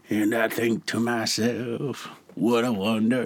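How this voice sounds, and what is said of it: Imitates another person's voice. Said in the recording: “my Louis impression. ... I'm not good at impressions.”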